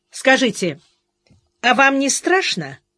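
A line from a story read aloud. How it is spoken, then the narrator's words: Abrupt change of topic. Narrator (Russian): резко сменил тему Меньшов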